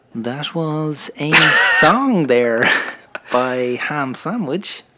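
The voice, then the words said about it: Mock radio announcer voice. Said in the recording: “doing your radio voice ... you started with your radio voice ... That's not how you talk, like ... I don't think it was quite as nasally as that”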